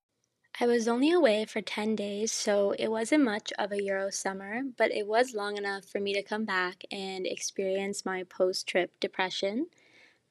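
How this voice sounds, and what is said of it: Tired, hoarse, fading voice. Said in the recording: “excuse the voice because I am jet lagged and keep waking up at 4 a.m. and I also, for some reason, am losing my voice.”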